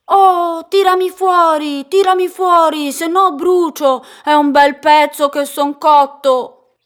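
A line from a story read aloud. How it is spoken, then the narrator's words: Distant shout. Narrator (Italian): sentì gridare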